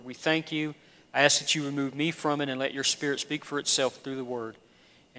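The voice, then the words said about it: Southern US accent. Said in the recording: “I'm not from these parts originally. I think my accent kind of gives it away ... being raised in the Deep South”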